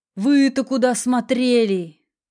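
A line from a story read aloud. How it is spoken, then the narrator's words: Loud. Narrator (Russian): Громко продолжил дядя Коля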